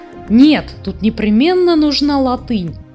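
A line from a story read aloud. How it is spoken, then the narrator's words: Exclamation. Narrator (Russian): воскликнул Хемуль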